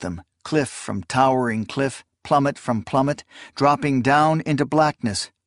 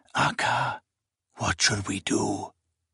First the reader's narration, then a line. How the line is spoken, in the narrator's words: Seswatha whispered